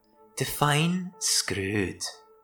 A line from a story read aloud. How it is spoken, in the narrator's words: said, slowly, in an accent she couldn't quite place